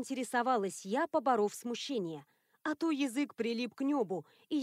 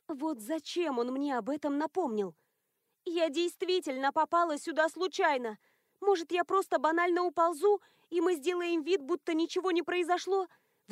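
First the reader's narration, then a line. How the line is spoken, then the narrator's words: Pleased pleading. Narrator (Russian): Взмолилась я, радуясь тому, какая замечательная идея пришла мне в голову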